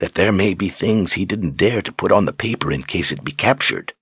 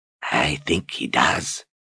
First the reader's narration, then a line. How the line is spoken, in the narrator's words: Addie said in a soft rasp